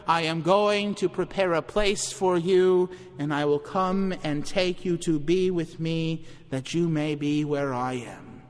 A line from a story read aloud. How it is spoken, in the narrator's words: The voice that cried out far louder than John ever could